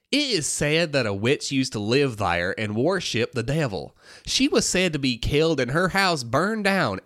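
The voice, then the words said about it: Put-on Southern American accent. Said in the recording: “I'm going to read it with a Southern accent”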